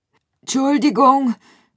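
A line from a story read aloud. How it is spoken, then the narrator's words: Calling out. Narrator (German): rief Gruyère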